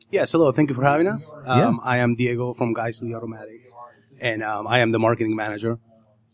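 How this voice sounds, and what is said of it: Argentine-accented English. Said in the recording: “where are you from? Georgia? That accent? ... South Carolina? ... A little more south than that. Originally, I'm from Argentina.”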